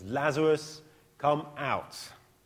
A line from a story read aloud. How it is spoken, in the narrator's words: He says in a loud voice